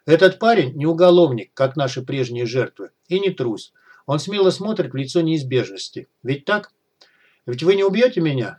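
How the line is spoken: Calm. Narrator (Russian): спокойно произнес Аким

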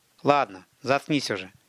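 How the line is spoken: Weary. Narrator (Russian): сказал Тимур устало

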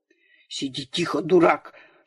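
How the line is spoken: Whisper through teeth. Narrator (Russian): шептал он сквозь зубы

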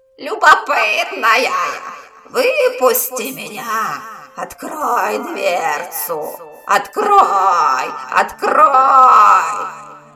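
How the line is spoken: Hoarse screaming. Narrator (Russian): Тварь оглушая девушку хриплыми воплями

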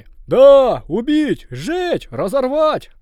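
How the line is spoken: Crowd shouting. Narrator (Russian): закричали люди

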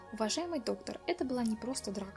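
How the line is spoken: Plain. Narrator (Russian): ответил Федерико

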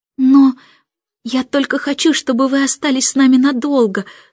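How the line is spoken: Embarrassed babbling. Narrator (Russian): сконфуженно пролепетал Майкл

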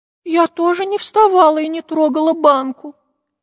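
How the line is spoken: Squeak. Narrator (Russian): пискнула Настенька

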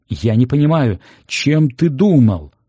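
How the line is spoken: Shouting. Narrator (Russian): кричал Аксюкович

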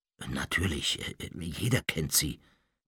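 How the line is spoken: Murmuring. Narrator (German): murmelte Mr

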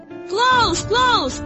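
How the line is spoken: Shouted. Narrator (Russian): закричала Сидора

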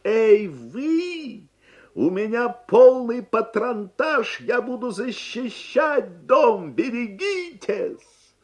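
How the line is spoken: Tremendous booming shout. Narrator (Russian): дядя Сандро набрал полную грудь воздуха и закричал своим неимоверным голосом

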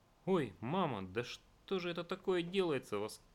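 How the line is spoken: Exclaiming. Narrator (Russian): воскликнул Петрович

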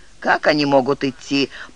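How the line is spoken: Grumbling mutter. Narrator (Russian): пробурчал

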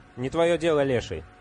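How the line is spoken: Irritated reply. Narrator (Russian): раздраженно ответил Виджай

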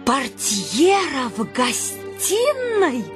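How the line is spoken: Agitated exclamation. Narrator (Russian): воскликнула она вся бледная, со сверкающими глазами

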